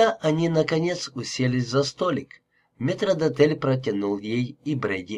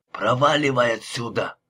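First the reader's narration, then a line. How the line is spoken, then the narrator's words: Old man's grumble. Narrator (Russian): пробурчал Брэди старческим голосом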